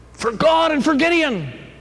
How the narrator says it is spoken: Gideon shouted

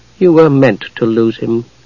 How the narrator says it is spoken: the Night Lord said calmly

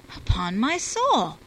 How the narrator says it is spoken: I cried

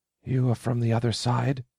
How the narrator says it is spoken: Anda rasped

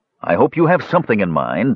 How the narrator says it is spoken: Tanis said irritably, because reflections or not, they're getting awfully close

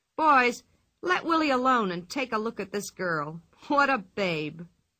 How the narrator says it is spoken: He slapped his knees and laughed

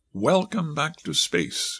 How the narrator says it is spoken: concluded warmly

